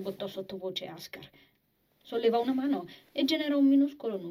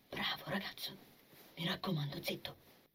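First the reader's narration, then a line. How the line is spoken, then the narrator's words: Whispered. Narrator (Italian): bisbigliò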